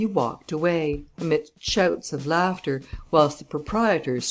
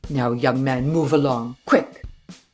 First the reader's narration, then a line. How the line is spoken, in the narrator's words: growled the sentinel